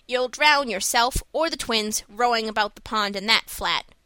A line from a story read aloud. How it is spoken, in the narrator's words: grumbled Marilla